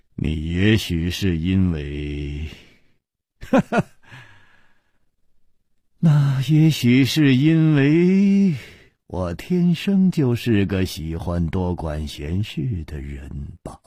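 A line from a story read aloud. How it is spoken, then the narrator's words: Wry, after long silence. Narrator (Chinese): 楚留香默然了半天，苦笑着说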